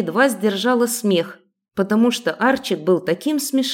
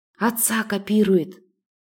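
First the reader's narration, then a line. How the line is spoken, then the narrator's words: Whisper. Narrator (Russian): прошептала Ани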